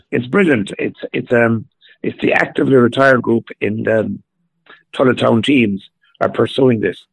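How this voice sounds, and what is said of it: Slightly hoarse voice. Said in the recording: “My voice is a little bit hoarse at the moment.”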